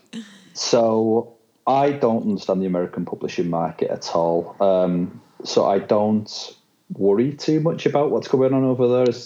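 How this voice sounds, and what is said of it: British accent. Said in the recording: “Obviously I'm British. This accent is not put on”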